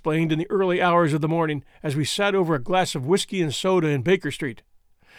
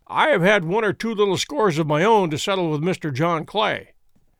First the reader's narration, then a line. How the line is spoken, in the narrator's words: said Holmes